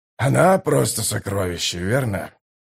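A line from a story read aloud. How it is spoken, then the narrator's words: Sighing mutter. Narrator (Russian): Со вздохом пробормотал Драсти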